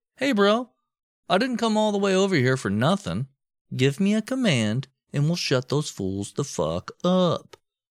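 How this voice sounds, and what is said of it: Put-on accent, well done. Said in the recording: “the accent was spot on, too.”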